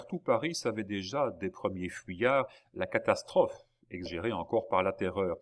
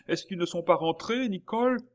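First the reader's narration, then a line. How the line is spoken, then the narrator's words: Slightly moved exclamation. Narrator (French): s'écria le baron, un peu ému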